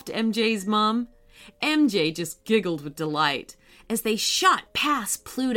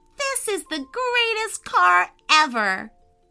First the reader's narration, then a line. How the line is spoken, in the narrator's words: She yelled